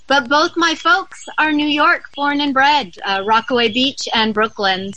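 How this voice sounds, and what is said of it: Southern California accent. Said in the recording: “my charming accent, yes, I'm very Southern California”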